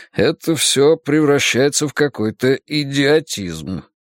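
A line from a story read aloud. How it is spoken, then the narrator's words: Through gritted teeth. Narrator (Russian): процедил Вуко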